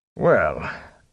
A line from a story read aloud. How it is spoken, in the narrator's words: Tom snorted